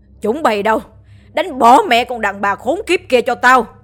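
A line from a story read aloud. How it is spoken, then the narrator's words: Old man shouting loudly. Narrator (Vietnamese): Lão ta ... hét lớn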